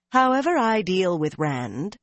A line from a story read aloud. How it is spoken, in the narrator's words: she said coolly